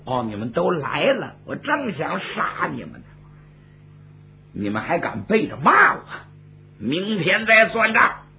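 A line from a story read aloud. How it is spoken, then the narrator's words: Furious. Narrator (Chinese): 纣王闻听重重大怒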